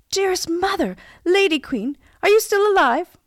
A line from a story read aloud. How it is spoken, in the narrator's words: cried